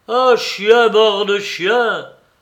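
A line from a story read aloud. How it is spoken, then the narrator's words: Cried out. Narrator (French): s'écria Mitya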